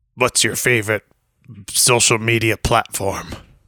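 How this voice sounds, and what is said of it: Ghostface character voice. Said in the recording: “you do your best Ghostface voice ... That wasn't bad. That really wasn't bad. I was expecting worse.”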